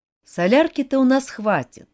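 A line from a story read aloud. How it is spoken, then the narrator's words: Bitter sigh. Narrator (Russian): горько вздохнул Родж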